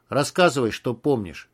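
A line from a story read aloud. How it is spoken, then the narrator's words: Dry. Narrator (Russian): сухо сказал Егор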